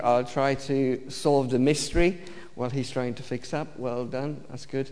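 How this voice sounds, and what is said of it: Romanian accent in English. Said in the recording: “my accent ... I'm Romanian-born. I've lived in the UK since 1993”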